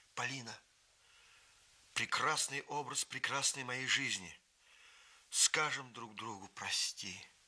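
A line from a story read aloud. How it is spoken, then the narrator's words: Exclaiming. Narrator (Russian): Рафаэль воскликнул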